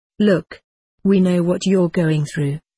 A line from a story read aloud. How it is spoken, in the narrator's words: said in a reasonable tone